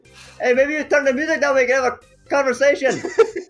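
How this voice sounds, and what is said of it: Yelling, put-on accent slipping. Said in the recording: “I can't really hold my accent when I yell.”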